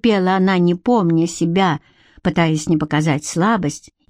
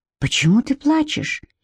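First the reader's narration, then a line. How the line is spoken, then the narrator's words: Surprisingly gentle question. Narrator (Russian): спросил на удивление мягко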